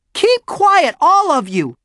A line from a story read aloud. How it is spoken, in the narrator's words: shouted Beezus